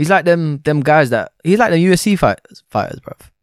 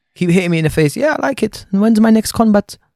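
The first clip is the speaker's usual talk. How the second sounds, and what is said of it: Poor put-on foreign accent. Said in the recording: “the impression was terrible ... Some Russian expat ... Iceland”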